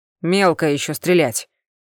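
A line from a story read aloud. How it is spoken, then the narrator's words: Grumbling. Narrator (Russian): проворчал капитан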